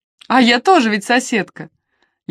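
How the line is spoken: Laughing. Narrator (Russian): Леди Хелен рассмеялась

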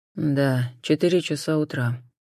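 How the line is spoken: Gloomy. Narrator (Russian): мрачно подтвердил Суарес

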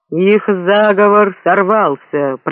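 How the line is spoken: Booming voice. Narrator (Russian): прогремел Гонг

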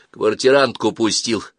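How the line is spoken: Snapping retort. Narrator (Russian): огрызнулся Саватеев

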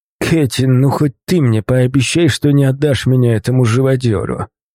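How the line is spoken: Groan. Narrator (Russian): Простонал

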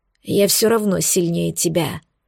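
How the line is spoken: Through gritted teeth. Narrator (Russian): сквозь зубы произнес Хром

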